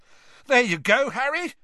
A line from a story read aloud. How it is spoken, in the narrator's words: Ron shouted over the noise